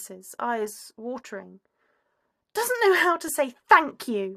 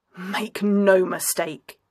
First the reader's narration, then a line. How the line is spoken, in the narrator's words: he growls, a threat wrapped in affection